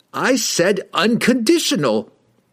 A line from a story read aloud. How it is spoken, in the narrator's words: he shrieked